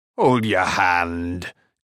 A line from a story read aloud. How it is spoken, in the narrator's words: chuckled Carl